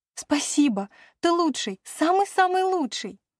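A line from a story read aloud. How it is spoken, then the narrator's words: Laughing. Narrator (Russian): Рассмеявшись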